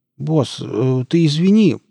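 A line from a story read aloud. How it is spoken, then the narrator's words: Mumbling. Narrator (Russian): промямлил Нарк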